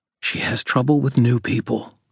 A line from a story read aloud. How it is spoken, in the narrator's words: I said quietly